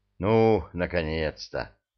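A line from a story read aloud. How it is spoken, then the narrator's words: Relieved sigh from many. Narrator (Russian): Облегченно вздохнули все, причем с обеих сторон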